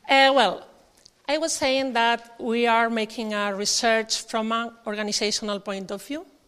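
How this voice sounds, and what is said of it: Spanish accent. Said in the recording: “I only have my words and a Spanish accent”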